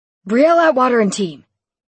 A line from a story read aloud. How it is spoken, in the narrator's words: Lincoln shouted from his place on the far wall